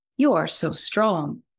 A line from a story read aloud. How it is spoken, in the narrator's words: exclaimed Snowflake